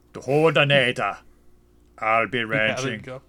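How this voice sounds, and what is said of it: Put-on Austrian accent. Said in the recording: “You have to say it with an Austrian accent.”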